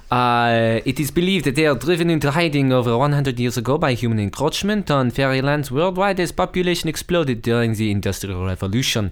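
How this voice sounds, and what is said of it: Put-on French accent. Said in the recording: “That's a fantastic French accent ... That really is, actually ... one of the harder ones to do”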